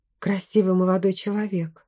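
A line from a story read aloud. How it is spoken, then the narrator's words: Soft smiling voice. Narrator (Russian): мягко улыбнулась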